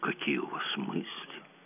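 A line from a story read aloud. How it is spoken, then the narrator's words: Sad reply. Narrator (Russian): ответил Гирланд, грустно качая головой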